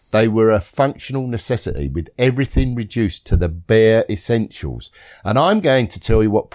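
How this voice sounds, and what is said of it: Usual voice. Nothing is said of it.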